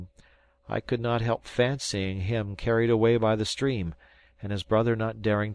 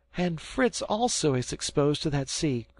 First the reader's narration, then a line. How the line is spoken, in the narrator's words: cried Ernest